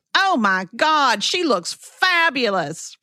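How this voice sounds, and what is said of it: Imitated North Carolina accent. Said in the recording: “He must be from New York ... His accent was very clearly from Hickory ... Clearly from North Carolina.”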